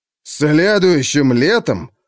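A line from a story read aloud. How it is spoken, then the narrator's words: Exclaimed in chorus. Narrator (Russian): хором воскликнули стратеги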